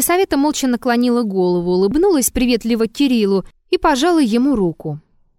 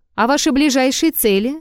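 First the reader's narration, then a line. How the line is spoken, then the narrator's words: Calm question. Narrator (Russian): спокойно спросил Ромеев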